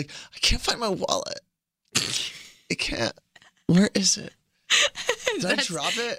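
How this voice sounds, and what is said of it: Drunk girl character voice. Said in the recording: “my drunk girl voice”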